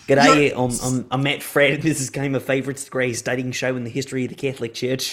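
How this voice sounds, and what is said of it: Well-done put-on Australian accent. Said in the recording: “That was a beautiful accent, by the way. ... That was really well done.”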